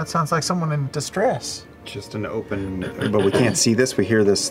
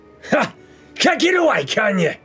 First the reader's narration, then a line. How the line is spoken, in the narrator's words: a shout to your right, a voice that just goes